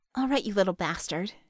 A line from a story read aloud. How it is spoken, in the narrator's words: she muttered